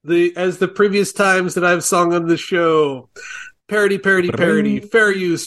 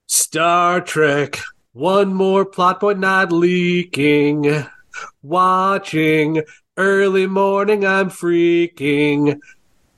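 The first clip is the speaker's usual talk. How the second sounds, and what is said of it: Sung impression of a movie character. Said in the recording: “my Rick Dalton impression”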